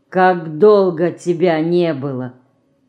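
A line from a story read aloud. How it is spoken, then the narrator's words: Sad. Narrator (Russian): она грустно сказала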